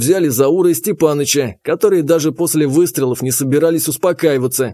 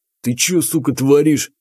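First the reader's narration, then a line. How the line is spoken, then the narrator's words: Through gritted teeth. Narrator (Russian): процедил он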